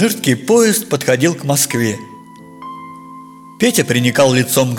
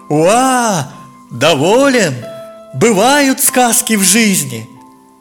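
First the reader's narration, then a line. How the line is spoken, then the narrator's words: Cheerful shout. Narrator (Russian): Как весело кричал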